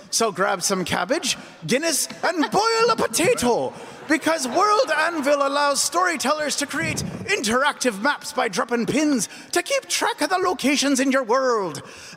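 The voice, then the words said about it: Put-on accent, drifting. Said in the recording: “Oh, what is the accent turning into?”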